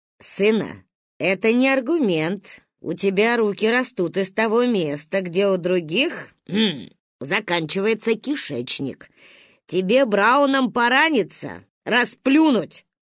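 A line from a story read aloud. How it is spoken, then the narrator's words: Grandma snorting. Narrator (Russian): фыркнула ба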